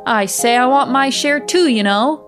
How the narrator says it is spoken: the boy woke up, he called out in a loud voice

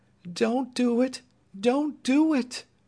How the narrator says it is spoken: begged Dorothy

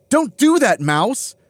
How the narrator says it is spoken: Bailey shrieks

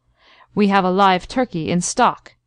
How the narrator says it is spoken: ended the colonel firmly

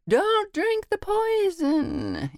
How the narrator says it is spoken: someone that screams out

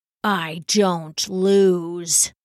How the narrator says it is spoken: the monk growled

